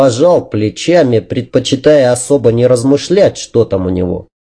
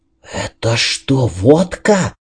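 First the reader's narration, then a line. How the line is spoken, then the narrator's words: Whisper. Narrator (Russian): шепнул Энтони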